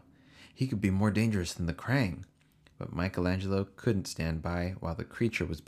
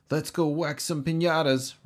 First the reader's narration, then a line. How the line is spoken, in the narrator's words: Raphael grunted